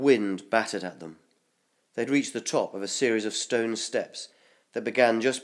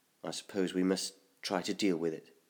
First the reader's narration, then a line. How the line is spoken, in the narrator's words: murmured, his steps feeling nervous and unsteady